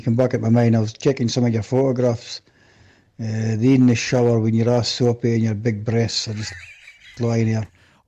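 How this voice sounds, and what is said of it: Broad Scottish accent. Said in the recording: “he's got a fucking hilarious Scottish accent.”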